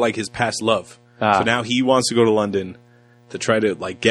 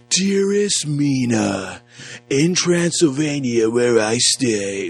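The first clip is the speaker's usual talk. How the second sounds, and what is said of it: Weird, bad British accent imitation. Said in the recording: “Keanu's voice trying to do like a British accent ... It's really fucking weird ... it's bad”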